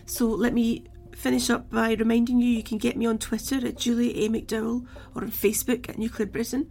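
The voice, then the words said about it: Croaky, failing voice. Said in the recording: “losing my voice. It's going very croaky. Perhaps you can hear that.”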